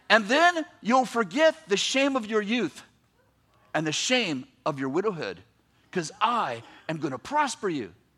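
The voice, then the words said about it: Shouting, loud preaching voice. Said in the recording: “I'm yelling. ... I realized I yelled through my whole message ... I'm like, I'm yelling.”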